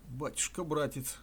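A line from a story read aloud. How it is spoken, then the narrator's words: Tearful old woman. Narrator (Russian): сказала старушка слезливым голосом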